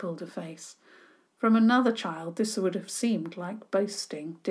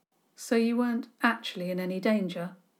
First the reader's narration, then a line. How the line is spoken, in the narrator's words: Douglas said flatly